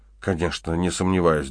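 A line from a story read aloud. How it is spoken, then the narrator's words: Trembling voice. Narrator (Russian): дрожащим голосом произнесла Вал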